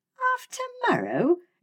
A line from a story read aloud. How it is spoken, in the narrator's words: exclaimed Fay with a start